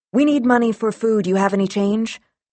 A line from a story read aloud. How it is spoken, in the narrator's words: You blurt